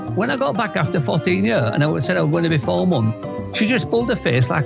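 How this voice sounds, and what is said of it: Fast speech with regional accent. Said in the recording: “talks fast and he's got a bit of an accent. Well, at least from my side of the pond anyway.”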